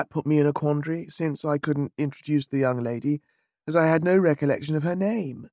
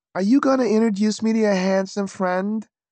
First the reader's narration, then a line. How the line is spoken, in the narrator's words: cooed